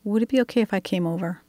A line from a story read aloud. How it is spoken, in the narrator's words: Reverend Cynthia softly asked